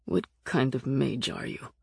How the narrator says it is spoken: grumbled

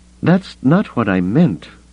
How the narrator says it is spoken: Leia said, her voice pained

